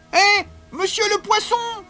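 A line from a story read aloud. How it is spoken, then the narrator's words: Shouted. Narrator (French): cria-t-il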